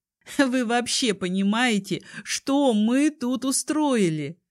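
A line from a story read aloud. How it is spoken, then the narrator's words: Asked through laughter. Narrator (Russian): Сквозь смех спросила я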